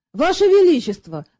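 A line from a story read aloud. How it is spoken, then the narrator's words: Indignant. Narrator (Russian): возмущенно изрек Шут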